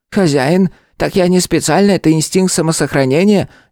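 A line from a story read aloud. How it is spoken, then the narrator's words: Guilty nervous squeak. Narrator (Russian): виновато пропищал, почему-то с опаской поглядывая на сопящего кота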